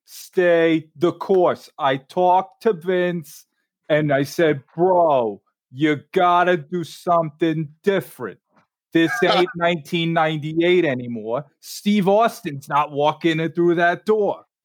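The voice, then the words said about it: New York-accented imitation of another person. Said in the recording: “That is a perfect example of Vince Russo. ... we're both from New York. It's perfect. ... That was really good impression of him. That's exactly how he talks.”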